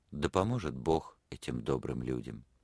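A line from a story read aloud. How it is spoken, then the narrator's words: Sigh, tender murmur. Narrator (Russian): Она вздохнула, нежно пробормотала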